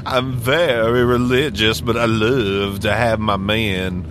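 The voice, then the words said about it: Exaggerated Southern drawl. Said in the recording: “Like in a southern drawl ... Sound like Blanche Devereaux from the Golden Girls”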